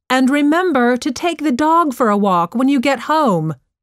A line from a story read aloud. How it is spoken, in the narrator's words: shouted her mom